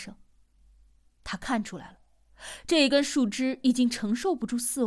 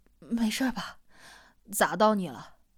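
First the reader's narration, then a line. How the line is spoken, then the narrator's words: Breathless apology. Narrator (Chinese): 他气喘吁吁的道歉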